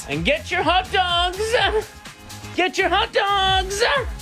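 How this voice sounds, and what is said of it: Stadium hot dog vendor shout. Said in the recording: “show off how you would sell hot dogs in a stadium ... listen how bad this is”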